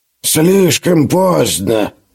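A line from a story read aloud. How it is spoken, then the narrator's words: Old man muttering. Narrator (Russian): пробормотал старый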